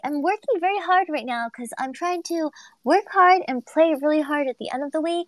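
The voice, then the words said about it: Tired, strained voice. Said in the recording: “tired ... as you guys can hear in my voice, I'm really struggling a little bit”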